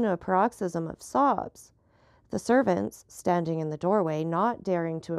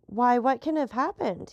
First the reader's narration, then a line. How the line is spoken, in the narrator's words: he exclaimed